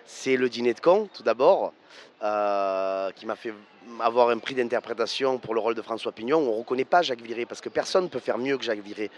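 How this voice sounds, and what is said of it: Provençal French accent. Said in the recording (French): “j'entends un accent ... je suis un Provençal, et j'ai jamais voulu enlever mon accent”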